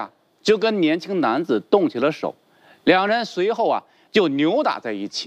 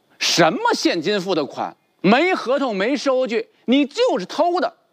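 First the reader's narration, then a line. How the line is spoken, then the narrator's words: Middle-aged man roaring angrily. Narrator (Chinese): 中年男子怒吼道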